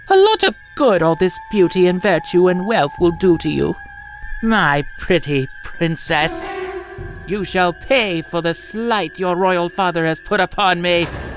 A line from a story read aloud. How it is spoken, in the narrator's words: she laughed and exclaimed